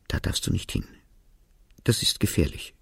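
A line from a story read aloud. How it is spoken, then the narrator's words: Half-choked whisper. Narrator (German): flüsterte mit halb erstickter Stimme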